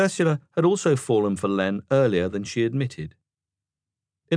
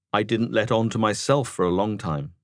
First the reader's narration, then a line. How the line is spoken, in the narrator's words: said Len